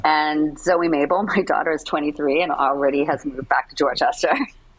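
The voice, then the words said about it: Boston accent. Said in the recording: “you still got the accent. You still got the Boston attitude. ... the Boston was totally there”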